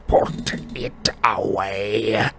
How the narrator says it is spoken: Uncle Vernon snarled into Harry's ear

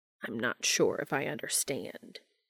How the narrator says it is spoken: he rasped

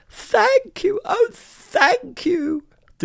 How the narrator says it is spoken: the grateful witch cried

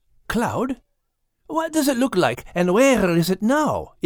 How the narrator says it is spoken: eagerly asked Max, still licking his chops

